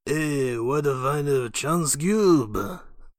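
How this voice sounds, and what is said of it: Watto impression. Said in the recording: “do Watto impersonations”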